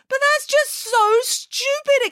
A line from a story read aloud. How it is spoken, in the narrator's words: exclaimed Frida